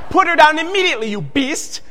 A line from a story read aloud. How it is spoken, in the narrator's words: Klaus shouted